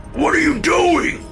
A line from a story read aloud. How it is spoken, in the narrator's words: Dad screamed